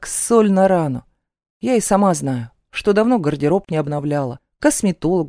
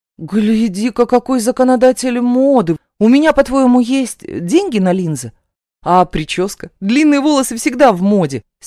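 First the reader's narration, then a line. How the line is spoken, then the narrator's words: Angry snapping. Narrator (Russian): Сердито огрызаюсь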